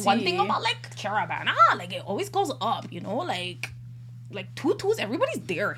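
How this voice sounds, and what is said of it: Put-on sing-song Toronto accent. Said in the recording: “the Toronto accent is so sing-songy”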